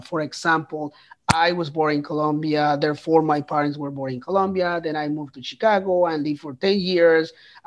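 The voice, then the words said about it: Latino accent in English. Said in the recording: “I speak English with a Latino accent”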